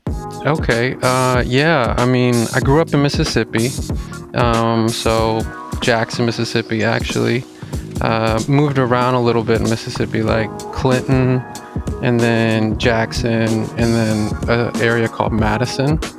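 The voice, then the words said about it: Slightly unique regional accent. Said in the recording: “You do have a little bit of a unique accent of your own”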